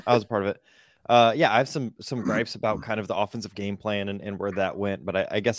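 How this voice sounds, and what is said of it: Hoarse, partially lost voice. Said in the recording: “you can hear my voice is partially gone”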